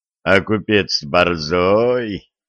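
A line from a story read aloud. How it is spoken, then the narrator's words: Robber's snort. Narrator (Russian): хмыкнул один из разбойников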